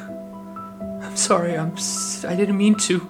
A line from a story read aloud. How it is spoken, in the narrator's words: Luna whimpered